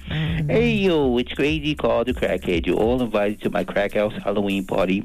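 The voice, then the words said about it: Creepy adult cartoon character voice. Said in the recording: “in my adult cartoon voice ... You sound creepy too”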